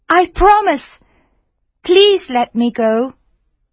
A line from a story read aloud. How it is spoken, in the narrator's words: cried the mermaid